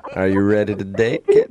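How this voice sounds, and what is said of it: Creepy put-on voice. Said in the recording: “Stop doing that voice, because it's just so creepy.”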